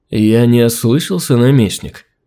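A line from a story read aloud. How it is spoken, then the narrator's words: Icy, cold inquiry. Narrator (Russian): Ледяным тоном осведомился главный консультант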